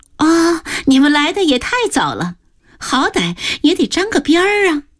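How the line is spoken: Happy, laughing. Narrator (Chinese): 紫云先是一喜，笑着刚说了一句

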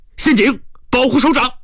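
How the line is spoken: Urgent alarmed shout. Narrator (Chinese): 一个警卫参谋高喊

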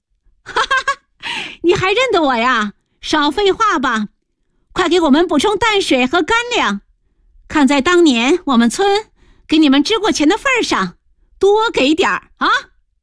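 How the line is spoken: Laughing woman. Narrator (Chinese): 大姐 笑着说

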